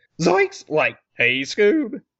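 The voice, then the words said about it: Bad cartoon character voice impression. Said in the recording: “the worst Shaggy impersonation ever ... it sounded more like Pinky”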